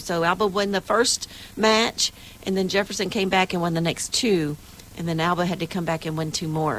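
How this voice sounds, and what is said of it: Slightly scratchy, hoarse voice. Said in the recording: “my voice is a little scratchy this morning ... screaming and yelling”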